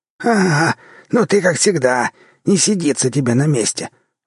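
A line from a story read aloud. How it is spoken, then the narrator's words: Grumbling. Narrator (Russian): заворчал Сивый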